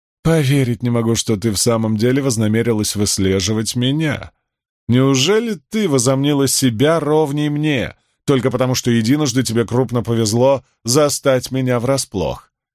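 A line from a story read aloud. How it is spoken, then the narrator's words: Mocking laugh. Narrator (Russian): Она извительно рассмеялась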